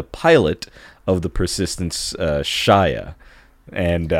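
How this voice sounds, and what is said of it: Usual voice. Nothing is said of it.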